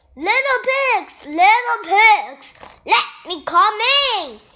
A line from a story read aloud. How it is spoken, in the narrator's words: yelled the wolf